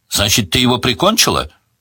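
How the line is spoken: Loud question. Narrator (Russian): громко спросил

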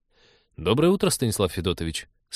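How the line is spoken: Mildly reproachful. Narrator (Russian): с легким упреком сказал он

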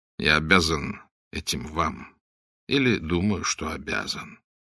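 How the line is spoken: Quiet reply. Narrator (Russian): тихо ответил Блад

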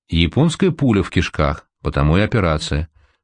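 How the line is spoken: Calm. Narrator (Russian): спокойно сказал Апухтин

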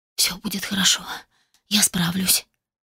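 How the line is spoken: Barely audible whisper to self. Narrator (Russian): едва слышно прошептала сама себе

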